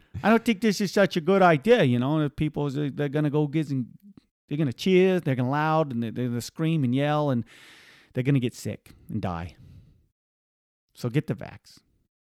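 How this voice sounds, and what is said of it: Poor impression of Dr. Fauci. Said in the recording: “That was my Fauci. I don't think that was a very good Fauci... That's a terrible Fauci”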